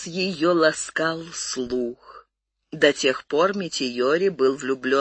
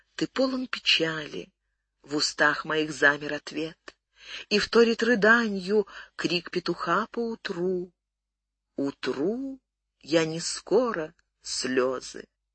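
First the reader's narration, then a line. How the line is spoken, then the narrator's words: Dazed whisper. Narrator (Russian): Отикубо невольно, словно в полузабытии, прошептала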